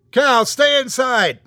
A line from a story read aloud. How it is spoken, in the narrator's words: I yelled